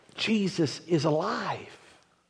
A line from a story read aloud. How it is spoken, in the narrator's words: He smiled and he leaned forward and whispered